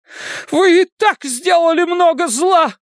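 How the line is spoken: Shouting. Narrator (Russian): кричала мать Эдди

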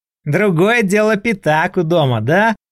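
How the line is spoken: Laughing. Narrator (Russian): рассмеялся Лешка

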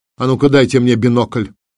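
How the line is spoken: Sharp command. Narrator (Russian): Врелев второй резко приказал вахтенному офицеру

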